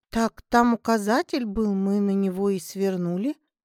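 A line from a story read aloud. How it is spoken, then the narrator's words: Confused reply. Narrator (Russian): ответила Лера растерянно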